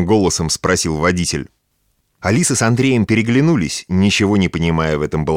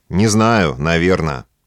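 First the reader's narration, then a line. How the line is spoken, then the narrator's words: Dry reply. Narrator (Russian): сухо ответил Андрей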